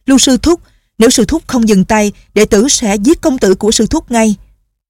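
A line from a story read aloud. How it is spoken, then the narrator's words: Shouted. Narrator (Vietnamese): Tên đệ tử phái Tung Sơn la lên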